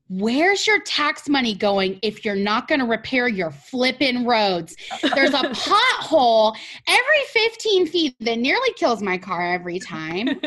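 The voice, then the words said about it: Yelling, passionate raised voice. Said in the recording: “I'm yelling.”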